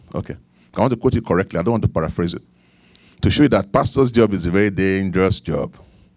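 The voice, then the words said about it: Nigerian English accent. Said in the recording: “I have Nigerian accent”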